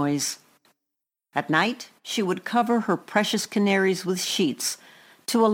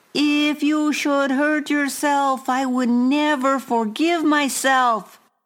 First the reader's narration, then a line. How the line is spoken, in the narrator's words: she yelled up to me